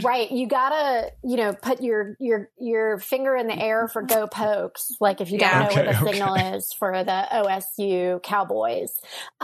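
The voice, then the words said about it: Southern American accent. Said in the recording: “I definitely have a southern accent.”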